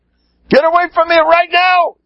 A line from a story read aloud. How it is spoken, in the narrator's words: He yells